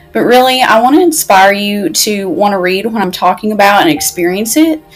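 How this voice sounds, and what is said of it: Speaks with a thick accent. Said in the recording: “I have an accent and I know it's pretty thick”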